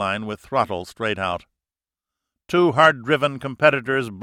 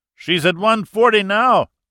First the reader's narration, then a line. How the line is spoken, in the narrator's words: Zavala yelled back